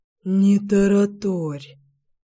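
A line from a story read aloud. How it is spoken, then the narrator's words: Resigned exhale. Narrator (Russian): выдохнул Алексей, очевидно смирившись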